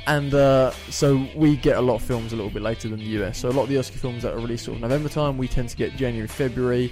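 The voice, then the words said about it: British accent. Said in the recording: “you can probably tell by our accents that we're from the United Kingdom”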